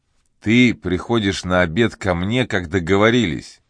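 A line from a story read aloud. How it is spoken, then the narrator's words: Plain, turned away. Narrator (Russian): сказал Филдинг, отвернувшись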